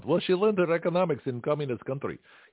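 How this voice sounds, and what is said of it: Put-on Russian accent. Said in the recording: “my Russian accent”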